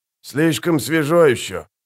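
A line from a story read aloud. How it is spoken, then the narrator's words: Grumbling. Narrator (Russian): проворчал Штырь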